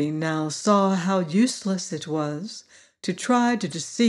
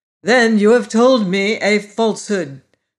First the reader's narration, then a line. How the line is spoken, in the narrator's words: cried Glinda angrily